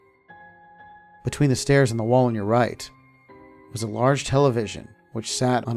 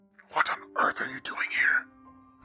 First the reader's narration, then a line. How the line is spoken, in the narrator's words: a whispered shout echoed